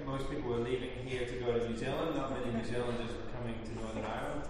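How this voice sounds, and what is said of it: Funny, foreign-sounding accent. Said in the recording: “I have a funny accent that still kind of makes me sound a bit foreign”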